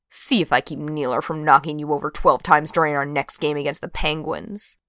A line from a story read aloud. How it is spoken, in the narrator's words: Brenna muttered